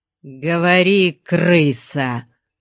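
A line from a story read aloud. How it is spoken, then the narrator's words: Growl. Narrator (Russian): зарычал он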